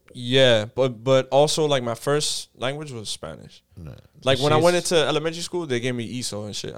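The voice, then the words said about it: Miami accent. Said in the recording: “I have a Miami accent.”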